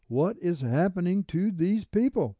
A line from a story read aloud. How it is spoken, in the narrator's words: I somewhat screamed at her